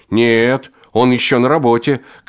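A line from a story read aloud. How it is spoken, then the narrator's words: Shouting back. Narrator (Russian): крикнул в ответ Женька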